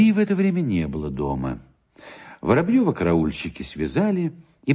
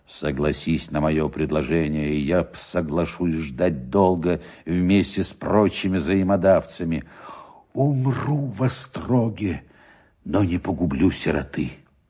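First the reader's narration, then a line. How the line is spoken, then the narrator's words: Low voice. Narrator (Russian): Шубин сказал ему вполголоса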